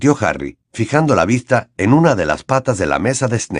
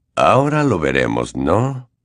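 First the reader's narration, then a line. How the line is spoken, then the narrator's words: Quiet voice. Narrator (Spanish): comentó este con voz queda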